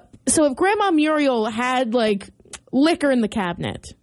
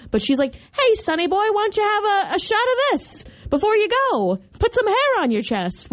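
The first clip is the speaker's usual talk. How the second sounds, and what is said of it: Put-on transatlantic accent, old grandma voice. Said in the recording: “Why is she talking a transatlantic accent?”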